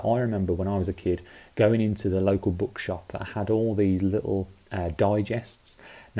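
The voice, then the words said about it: British accent. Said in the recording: “as you can tell by my accent, I grew up in the UK”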